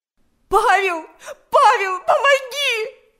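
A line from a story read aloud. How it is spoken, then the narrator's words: Scream for help. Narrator (Russian): закричала Галя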